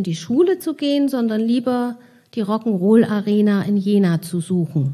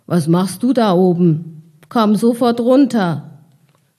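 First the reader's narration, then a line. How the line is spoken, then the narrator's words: Called out. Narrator (German): rief einer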